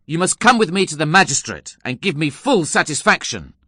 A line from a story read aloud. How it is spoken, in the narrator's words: I exclaimed angrily